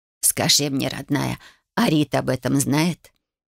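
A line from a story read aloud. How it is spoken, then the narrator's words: Soft, smiling. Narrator (Russian): Мягко улыбнулась она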